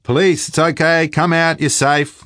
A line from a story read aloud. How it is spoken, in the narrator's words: I'm yelling